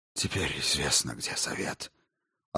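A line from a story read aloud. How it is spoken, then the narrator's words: Deathly numb voice. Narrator (Russian): ответил Курабин помертвевшим голосом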